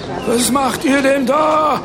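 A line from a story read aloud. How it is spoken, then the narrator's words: Woman shouting indignantly. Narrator (German): schrie eine Frau empört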